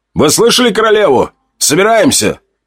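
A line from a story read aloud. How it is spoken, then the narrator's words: Shouting. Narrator (Russian): Прокричал он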